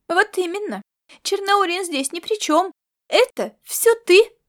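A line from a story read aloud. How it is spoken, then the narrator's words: Exclamation. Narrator (Russian): воскликнула Сорнойка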